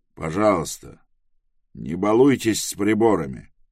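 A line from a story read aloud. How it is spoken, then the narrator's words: Angry male mutter. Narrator (Russian): сердито буркнул он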